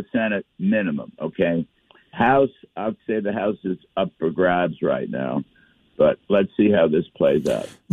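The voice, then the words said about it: Slightly hoarse voice. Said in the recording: “a little hoarse. I'm sorry. I'm a little hoarse.”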